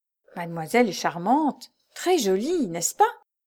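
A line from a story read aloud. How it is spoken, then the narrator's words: Exclamation in French. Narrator (French): s'écria en français Hortense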